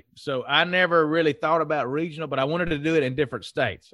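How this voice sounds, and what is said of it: Strong Southern US accent. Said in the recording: “I'm as Southern as it gets, as my accent will indicate.”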